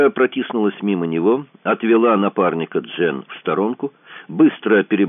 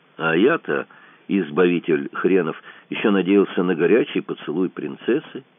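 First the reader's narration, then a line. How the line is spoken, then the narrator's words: Sad. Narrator (Russian): грустно сказал Кацуба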